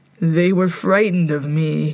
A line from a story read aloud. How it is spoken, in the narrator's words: he said, his voice smoke hoarse